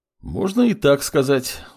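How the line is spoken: Sigh, young man. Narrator (Russian): вздохнул молодой бог

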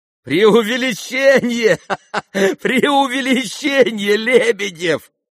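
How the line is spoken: Laughing crowd. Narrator (Russian): хохотали кругом

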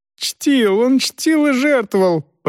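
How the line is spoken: Squeaky voice. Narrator (Russian): пропищал Ханс Йоахим

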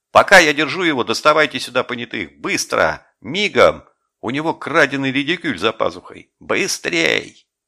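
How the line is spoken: Urgent shouting. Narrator (Russian): Жеглов кричал

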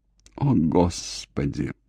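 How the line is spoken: Moaning. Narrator (Russian): простонала Ив

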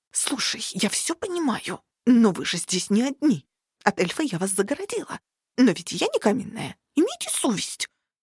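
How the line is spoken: Indignant accusing hiss. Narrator (Russian): Обвиняюще прошипела возмущенная до глубины души Шаксус Джер

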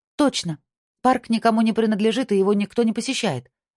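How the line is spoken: Exclamation. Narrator (Russian): воскликнула Мию

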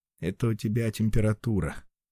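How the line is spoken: Gloomy retort. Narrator (Russian): мрачно парирует ее спаситель

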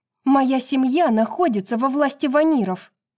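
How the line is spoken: Sharp reply. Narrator (Russian): резко ответила она

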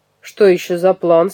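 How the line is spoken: Stern question. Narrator (Russian): строго спросил дядя Франсуа

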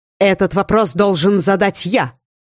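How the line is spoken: Snapping. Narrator (Russian): огрызнулся ректор

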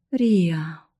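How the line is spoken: Groaning. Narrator (Russian): застонал Милар

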